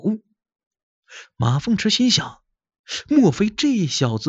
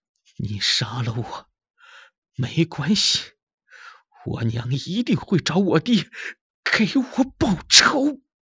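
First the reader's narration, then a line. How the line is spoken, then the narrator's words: Bleeding, bitter laugh. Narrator (Chinese): 青年是口吐鲜血，惨笑着说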